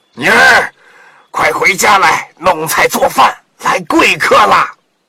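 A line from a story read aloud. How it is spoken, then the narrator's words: Old fisherman calling. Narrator (Chinese): 渔翁喊道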